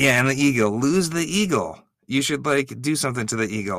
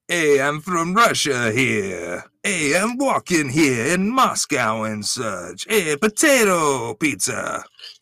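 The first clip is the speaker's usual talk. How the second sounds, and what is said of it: Russian accent slipping into Brooklyn accent. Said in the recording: “slipping from Russian accent into like Brooklyn accent.”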